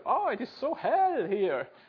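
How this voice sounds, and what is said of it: Put-on German accent. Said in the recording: “Sorry about the accent”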